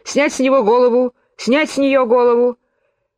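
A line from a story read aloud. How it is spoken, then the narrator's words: Incessant quarrelsome shouting. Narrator (Russian): королева безумолку ссорилась с игроками и кричала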